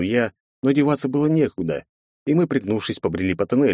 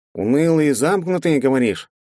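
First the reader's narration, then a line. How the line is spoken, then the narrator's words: Nasal grumbling. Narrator (Russian): Гундося проворчал Пофиг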